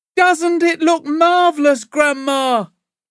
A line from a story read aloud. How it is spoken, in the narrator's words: George shouted